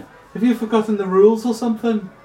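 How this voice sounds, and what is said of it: Put-on Irish accent. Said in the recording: “This is going to be an Irish accent.”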